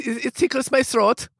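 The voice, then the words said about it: Put-on German accent. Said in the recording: “Do a German accent. Say it tickles my throat with a German accent.”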